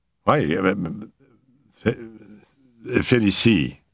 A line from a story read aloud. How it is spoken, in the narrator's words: I stammered